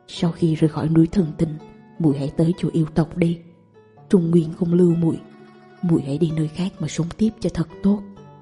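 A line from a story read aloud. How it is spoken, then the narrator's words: Quiet instruction. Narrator (Vietnamese): nhỏ giọng dặn dò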